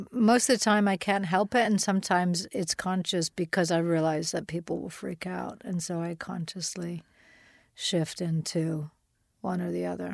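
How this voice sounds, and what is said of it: American accent. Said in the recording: “at the present moment, I'm talking to you with an American accent”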